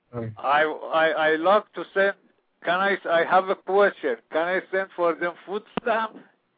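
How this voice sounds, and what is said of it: Caller's strong foreign accent. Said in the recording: “What a great accent.”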